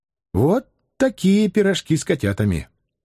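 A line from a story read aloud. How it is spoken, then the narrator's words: Quiet request. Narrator (Russian): Катя тихо попросила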